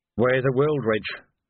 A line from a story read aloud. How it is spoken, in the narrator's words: murmured Vimes